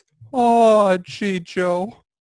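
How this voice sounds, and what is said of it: Morty voice impression. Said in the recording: “doing the Morty voice”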